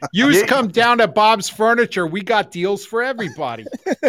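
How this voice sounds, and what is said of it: Put-on Pennsylvania Dutch-Jersey accent. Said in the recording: “with an almost Jersey accent ... Dutch hit with a Jersey accent ... Dutchy accent with a Jersey accent”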